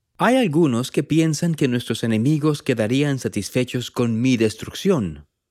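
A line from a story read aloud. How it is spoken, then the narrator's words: Plain. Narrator (Spanish): dijo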